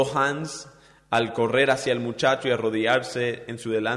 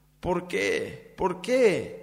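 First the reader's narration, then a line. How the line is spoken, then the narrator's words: Pleading. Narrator (Spanish): imploraba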